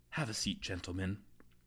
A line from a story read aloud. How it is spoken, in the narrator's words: After a long, uncomfortable pause, softly whispers